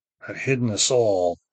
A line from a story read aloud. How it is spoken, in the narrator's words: Duni said, sullenly, for his head hurt from his father's blow, and the working of the doubled incantation has drained his strength